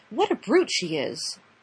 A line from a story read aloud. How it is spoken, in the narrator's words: Roby turned back to whisper